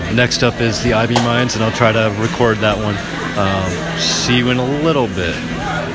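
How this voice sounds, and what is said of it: Radio announcer voice. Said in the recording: “you're doing your radio voice.”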